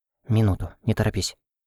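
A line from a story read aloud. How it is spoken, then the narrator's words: Whispered. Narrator (Russian): шепнула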